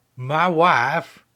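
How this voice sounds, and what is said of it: Borat character voice impression. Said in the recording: “we can all break out our Borat impressions... if you don't do impressions at all, like myself, you can still do a Borat impression”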